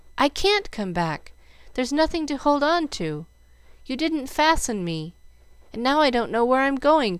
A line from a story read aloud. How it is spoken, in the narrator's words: cried Jill